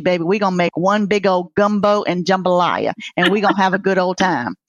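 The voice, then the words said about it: Southern Louisiana country accent. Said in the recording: “I don't think anybody knew you were from New Orleans, really. ... you can't hear it. You cannot hear it in my little old country accent.”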